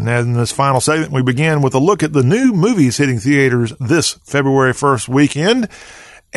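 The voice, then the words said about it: Southern American accent. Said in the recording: “We have a Southern accent”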